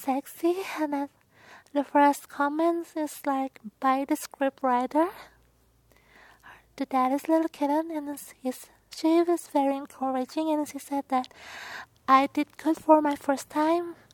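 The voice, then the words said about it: Thick non-native accent. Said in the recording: “my accent is weird ... my accent is too thick and weird”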